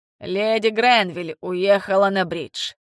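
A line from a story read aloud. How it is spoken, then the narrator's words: Cold, dismissive. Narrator (Russian): ответил Барнаби холодно, таким тоном, будто не считал собеседника достойным своего внимания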